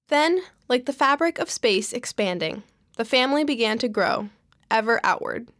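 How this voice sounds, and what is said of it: American accent. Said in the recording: “my very American accent”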